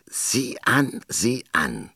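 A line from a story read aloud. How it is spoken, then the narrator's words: Hoarse hiss from above. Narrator (German): zischte eine heisere Stimme über ihrem Kopf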